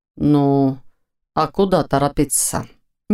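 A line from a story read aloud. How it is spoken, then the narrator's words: Unexpectedly calm question. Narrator (Russian): неожиданно спокойно спросил Войтых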